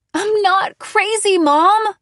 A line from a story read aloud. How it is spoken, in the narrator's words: I screamed